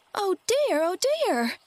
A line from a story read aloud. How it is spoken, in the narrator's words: cried Dorothy, in dismay